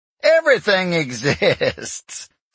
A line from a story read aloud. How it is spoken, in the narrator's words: Steph said, laughing